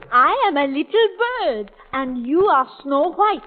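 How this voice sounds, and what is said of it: Fake French accent. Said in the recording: “a bird with a French accent”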